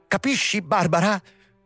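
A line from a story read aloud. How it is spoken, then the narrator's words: Muffled flushed exclamation. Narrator (Italian): esclamò Hendrik, portandosi le mani davanti al volto infuocato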